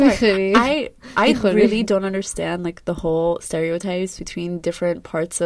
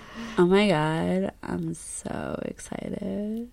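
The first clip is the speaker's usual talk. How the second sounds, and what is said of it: Put-on Valley Girl accent. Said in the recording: “Did a Valley Girl accent.”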